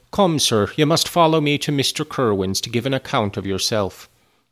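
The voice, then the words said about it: Put-on Irish accent. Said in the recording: “that sounded more Irish.”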